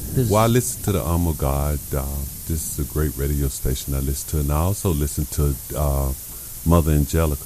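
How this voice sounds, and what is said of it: Southern US Alabama accent. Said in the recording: “my accent, the country boy from Alabama”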